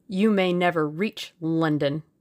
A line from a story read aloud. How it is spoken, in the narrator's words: snarled the other